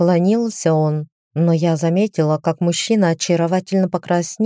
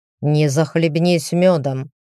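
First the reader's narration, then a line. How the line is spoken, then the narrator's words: Grumbling. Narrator (Russian): проворчал Демьен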